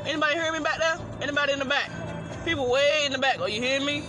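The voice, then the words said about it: Loud, near-yelling speech. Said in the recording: “I'm not yelling. I'm just talking loud. ... why are you yelling at me?”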